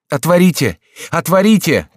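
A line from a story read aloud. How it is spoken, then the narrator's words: Shouting. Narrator (Russian): кричал он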